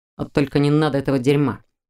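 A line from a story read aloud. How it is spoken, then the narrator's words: Angry, through teeth. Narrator (Russian): зло процедил Мур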